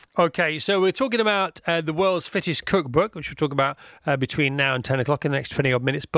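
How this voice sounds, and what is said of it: English accent. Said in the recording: “nice to hear an English accent”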